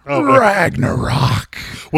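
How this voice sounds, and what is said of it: Vince McMahon impression. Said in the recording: “my Vince McMahon impression.”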